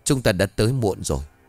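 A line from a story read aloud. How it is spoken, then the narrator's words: Old man, sighing. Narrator (Vietnamese): Lão Bân ông khẽ thở dài rồi lắc đầu nói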